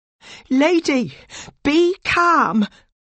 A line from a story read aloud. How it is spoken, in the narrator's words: said in a loud voice